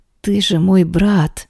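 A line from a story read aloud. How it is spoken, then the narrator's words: Hoarse. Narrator (Russian): сипло произношу я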